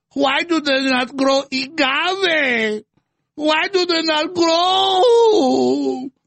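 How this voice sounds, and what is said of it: AOC impression, fake Hispanic accent. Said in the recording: “This weird fake Hispanic accent, like she's in a Speedy Gonzalez cartoon or something”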